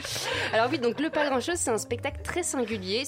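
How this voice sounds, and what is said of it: French with a British accent. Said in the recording (French): “gens qui les origines british, c'est quoi cet accent”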